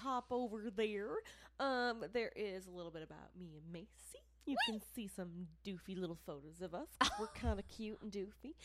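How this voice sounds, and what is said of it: Put-on Southern accent. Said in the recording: “I don't know why I've got a southern accent. ... Turned into a southern belle.”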